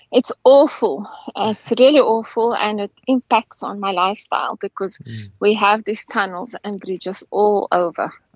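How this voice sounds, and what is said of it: Mixed South African and Norwegian accent. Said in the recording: “a combination of a Capetonian and Norwegian accent”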